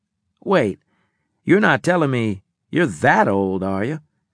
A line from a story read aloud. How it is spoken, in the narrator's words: He chuckled